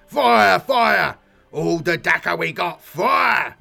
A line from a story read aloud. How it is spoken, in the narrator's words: He bellowed into the comms tube